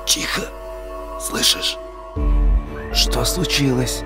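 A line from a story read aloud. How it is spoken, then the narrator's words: Whispering. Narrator (Russian): Гришка тоже перешел на шепот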